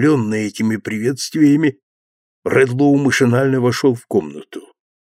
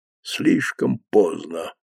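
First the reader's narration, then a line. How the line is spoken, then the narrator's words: Old man muttering tearfully. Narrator (Russian): бормотал старик, слезы ручьями лились по его щекам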